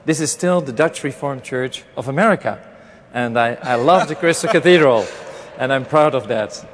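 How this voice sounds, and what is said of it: Dutch-accented English. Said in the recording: “my broken Dutch accent”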